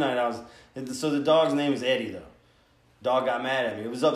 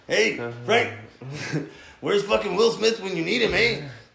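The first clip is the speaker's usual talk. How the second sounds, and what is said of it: Put-on Mexican accent. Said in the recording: “I was talking like this the whole time ... It sounded like a Mexican version of that with my accent ... you went south of the border”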